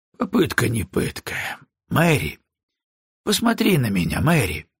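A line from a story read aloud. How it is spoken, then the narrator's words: Gentle. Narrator (Russian): Броуди говорил ласково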